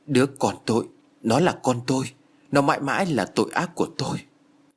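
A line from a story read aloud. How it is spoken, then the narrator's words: Trembling, frightened voice. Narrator (Vietnamese): Sắc mặt của Beckna tái nhợt với giọng run rẩy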